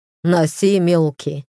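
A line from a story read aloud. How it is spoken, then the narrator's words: Brother's amused snort. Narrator (Russian): хмыкнул брат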